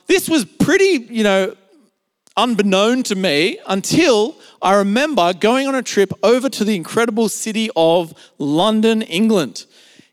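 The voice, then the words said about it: Australian accent. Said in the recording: “I have what you would call an Australian accent or an Aussie accent.”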